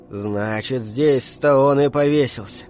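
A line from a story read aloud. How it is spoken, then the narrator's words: Muttered. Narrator (Russian): пробормотал Кэлвин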